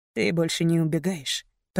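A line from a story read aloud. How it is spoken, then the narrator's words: Muttered. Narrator (Russian): пробормотал Мейсон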